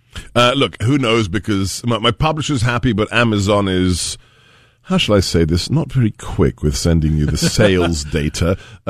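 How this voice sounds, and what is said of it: Distinctive foreign accent. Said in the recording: “if you like this accent... Can you teach me that accent? I would love to be able to speak like... that.”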